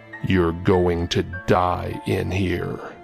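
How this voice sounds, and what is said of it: Cold, deep manly voice. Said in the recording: “He stared at me coldly and spoke in a manly voice.”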